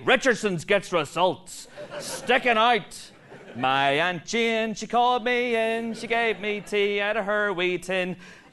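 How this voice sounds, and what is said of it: Exaggerated Northern Irish accent. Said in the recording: “a strange fluctuation of the accent ... A flare-up of my Northern Irish accent”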